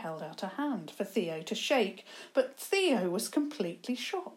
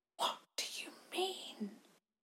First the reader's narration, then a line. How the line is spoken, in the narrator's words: he managed to whisper eventually